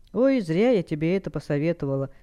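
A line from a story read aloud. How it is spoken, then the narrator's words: Sighing. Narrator (Russian): вздохнула Алекс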